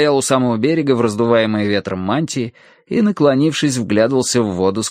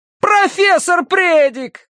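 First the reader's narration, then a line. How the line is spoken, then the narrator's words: Shout. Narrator (Russian): крикнул Терренс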